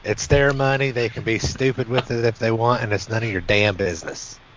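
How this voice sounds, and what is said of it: Southern rural hillbilly accent. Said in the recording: “That went so well with your accent, man ... hillbilly”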